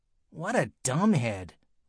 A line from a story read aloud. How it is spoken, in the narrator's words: whispered Andrea Young, this annoying girl